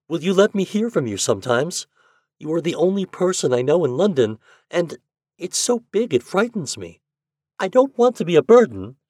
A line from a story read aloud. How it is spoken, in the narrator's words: she went on eagerly